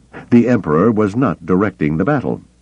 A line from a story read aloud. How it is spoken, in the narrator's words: Pelion snapped with a fire